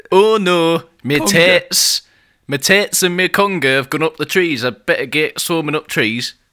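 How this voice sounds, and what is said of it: Put-on Scunthorpe local accent. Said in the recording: “that is a Scunthorpe local we've just had phone in... as you can tell from that accent”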